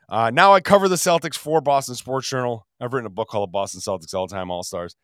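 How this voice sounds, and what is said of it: Altered, under-the-weather sick voice. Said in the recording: “I also used to have a voice... I remain a little under the weather... It's just now my voice sounds a little bit different... after I catch a cold where my voice does this”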